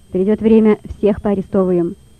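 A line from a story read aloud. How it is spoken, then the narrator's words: Sharp. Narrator (Russian): резко сказал следователь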